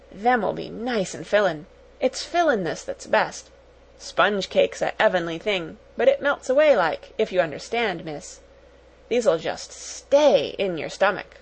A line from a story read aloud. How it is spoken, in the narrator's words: murmured